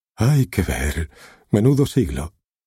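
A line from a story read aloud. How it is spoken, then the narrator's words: Sigh. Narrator (Spanish): suspiró Cody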